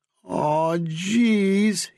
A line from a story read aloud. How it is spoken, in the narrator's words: he groaned